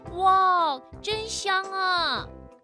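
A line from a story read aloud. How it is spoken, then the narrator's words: Group exclaiming. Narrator (Chinese): 他们叫起来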